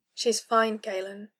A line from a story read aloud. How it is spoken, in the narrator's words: he said softly